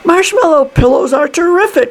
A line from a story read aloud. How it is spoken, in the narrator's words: shouted Mr